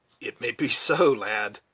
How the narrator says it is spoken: muttered the scout

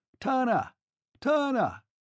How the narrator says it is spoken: shouting

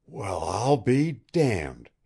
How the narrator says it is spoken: he gasped

